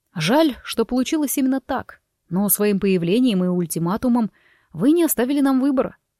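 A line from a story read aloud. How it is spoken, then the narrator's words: Calm. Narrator (Russian): спокойно произнес Форест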